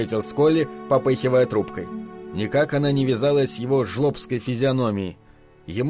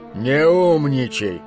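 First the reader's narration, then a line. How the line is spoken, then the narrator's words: Good-natured grumble. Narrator (Russian): беззлобно проворчал он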